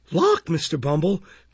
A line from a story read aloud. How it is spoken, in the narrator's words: cried Mrs